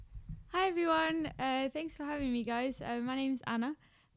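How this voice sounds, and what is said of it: Strong South African accent. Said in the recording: “you have a South African accent and you haven't lost it one bit. It's still very much there, very strong”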